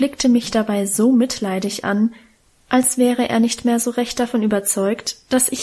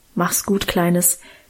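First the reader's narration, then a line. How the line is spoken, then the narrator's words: Mumbled farewell. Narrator (German): sagte Onkel Ewartsbusch, brummelte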